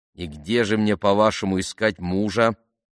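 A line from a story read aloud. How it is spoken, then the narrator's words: Grumbling mutter. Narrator (Russian): пробурчала она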